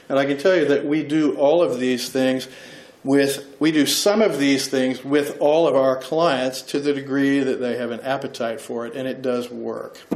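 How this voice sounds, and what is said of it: Thick accent. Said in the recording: “My thick accent”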